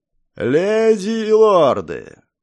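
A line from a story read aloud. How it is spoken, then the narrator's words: Magically amplified roar. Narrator (Russian): взревел магически усиленный голос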